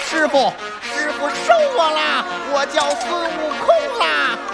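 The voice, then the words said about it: Wild monkey-like Sun Wukong voice. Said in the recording (Chinese): “模仿猴子本身的叫声 ... 我学一下李世宏老师 ... 野性”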